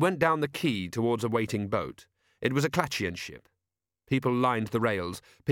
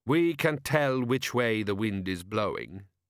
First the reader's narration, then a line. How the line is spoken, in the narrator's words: said Gorriff calmly